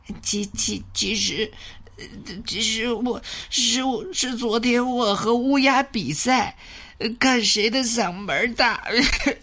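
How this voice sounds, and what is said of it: Hoarse, stammering rooster voice. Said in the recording (Chinese): “它嗓子哑了。...哎呀，嗓子肿了！”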